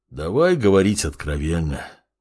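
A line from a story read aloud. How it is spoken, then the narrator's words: Sighing. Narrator (Russian): вздохнул Геолирун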